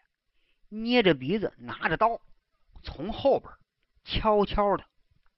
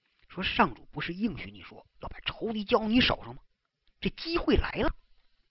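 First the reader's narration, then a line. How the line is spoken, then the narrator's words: Whispering. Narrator (Chinese): 有人小声对大卫说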